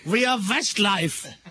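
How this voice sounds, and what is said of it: Attempted German accent. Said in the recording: “I can't say the German accent.”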